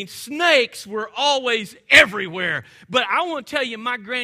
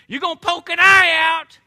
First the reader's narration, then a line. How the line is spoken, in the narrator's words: she was always hollering from her porch